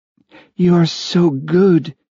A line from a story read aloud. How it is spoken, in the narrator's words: she breathed